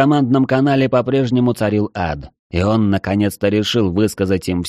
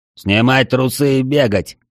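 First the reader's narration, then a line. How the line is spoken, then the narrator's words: Rough bark. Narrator (Russian): грубо рявкнул Джерхан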